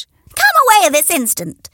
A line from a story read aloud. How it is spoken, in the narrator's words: Henrietta shrieked